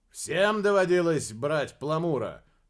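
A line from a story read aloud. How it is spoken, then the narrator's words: Loud question. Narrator (Russian): громко спросил Дерек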